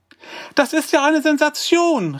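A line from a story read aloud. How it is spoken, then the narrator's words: Called out. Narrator (German): rief sie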